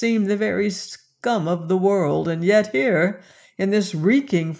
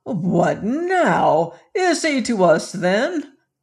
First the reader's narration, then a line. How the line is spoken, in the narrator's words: cried one